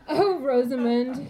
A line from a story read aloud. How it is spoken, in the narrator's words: he laughs